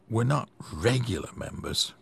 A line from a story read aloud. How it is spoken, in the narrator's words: Mel and Lily under their breaths muttered